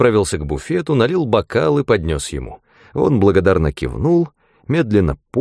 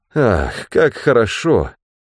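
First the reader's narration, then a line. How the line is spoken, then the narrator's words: Contented sigh. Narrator (Russian): вздохнул Ганилон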